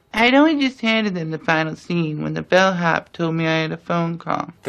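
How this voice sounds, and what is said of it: Spot-on Truman Capote impression. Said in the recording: “Impersonation of Truman Capote. ... His particular vocal quality and mannerisms are just like Capote's. ... The accent is dead on perfect. ... And the accent's totally integrated.”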